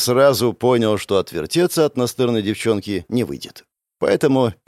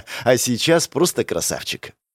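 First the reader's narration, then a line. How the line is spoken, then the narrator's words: Laughing. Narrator (Russian): рассмеялась Заряна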